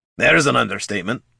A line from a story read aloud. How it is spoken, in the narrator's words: grumbled the dwarf